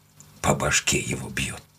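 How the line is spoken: Muttered. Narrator (Russian): пробормотал он

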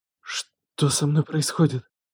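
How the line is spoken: Terrified whisper. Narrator (Russian): прошептала она, и в голосе звучал неподдельный ужас

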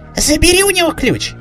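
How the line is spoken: Shrill shriek, mother. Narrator (Russian): взвизгнула мамаша Джоя

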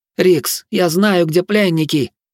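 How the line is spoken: Hoarse shout. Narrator (Russian): хрипло выкрикнула свирель

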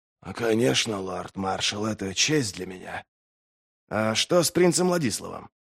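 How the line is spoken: Quiet question. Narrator (Russian): негромко спросил Берр

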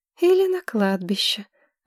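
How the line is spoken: Sighing. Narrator (Russian): вздохнула Маргарет

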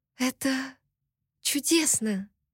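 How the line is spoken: Admiring whisper. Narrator (Russian): с восхищением прошептала

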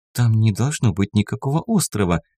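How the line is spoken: Confused. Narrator (Russian): проговорила она растерянно

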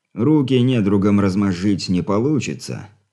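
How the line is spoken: Snorting reply. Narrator (Russian): хмыкнув, ответил Юрий Петрович

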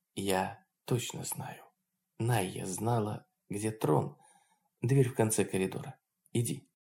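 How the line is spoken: Whispered answer, female. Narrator (Russian): Лаон также шепотом ответила

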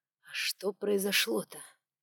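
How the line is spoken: Breathed out. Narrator (Russian): выдохнул

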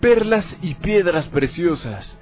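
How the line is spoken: Plain. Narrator (Spanish): dijo la otra

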